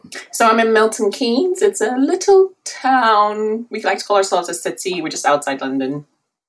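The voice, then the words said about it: British accent. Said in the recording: “I love your accent. You're in the UK, right?”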